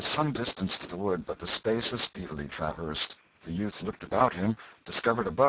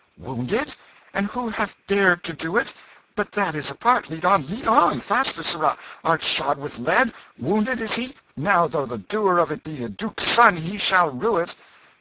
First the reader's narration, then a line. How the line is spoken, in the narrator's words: The king's manner changed at once, and he cried out